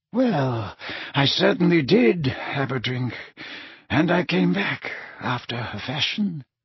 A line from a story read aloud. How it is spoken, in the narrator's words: mumbled Dumbledore